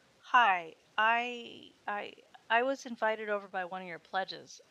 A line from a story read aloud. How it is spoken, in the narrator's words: I stammered